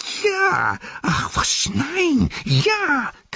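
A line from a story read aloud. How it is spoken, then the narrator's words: Shrieking. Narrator (German): kreischte Gollum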